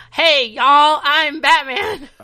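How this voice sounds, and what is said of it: Put-on Southern American accent. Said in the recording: “He's trying to do an American accent, but it just sounds really Southern.”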